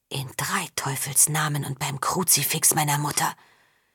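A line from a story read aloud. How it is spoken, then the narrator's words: Whispering. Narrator (German): flüsterte Zinder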